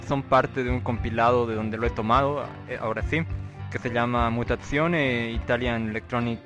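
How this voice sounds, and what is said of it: Spanish speech with put-on Italian accent. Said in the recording (Spanish): “¿por qué estoy hablando con acento italiano?”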